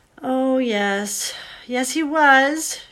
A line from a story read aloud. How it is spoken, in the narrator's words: said miserably